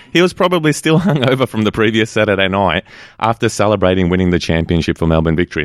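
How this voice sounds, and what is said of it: Put-on Australian accent. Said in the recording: “Notice he's putting on the Aussie accent.”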